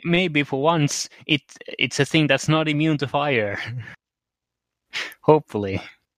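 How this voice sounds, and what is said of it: Speaks with a noticeable accent. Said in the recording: “I misheard with your accent”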